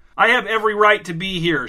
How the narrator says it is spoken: shouted Cecil

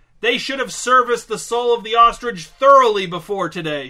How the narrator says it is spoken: shouted Marcel

